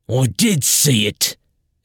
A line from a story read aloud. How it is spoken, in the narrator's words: Edar snapped